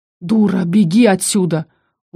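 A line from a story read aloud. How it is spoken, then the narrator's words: Growling. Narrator (Russian): Он уже не хрипел, а рычал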